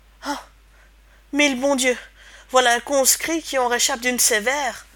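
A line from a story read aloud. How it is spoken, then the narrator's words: Patrol exclaiming. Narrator (French): s'écria la patrouille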